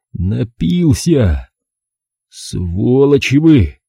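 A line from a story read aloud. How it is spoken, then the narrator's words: Hoarse exhaled male voice. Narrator (Russian): хрипло выдохнул он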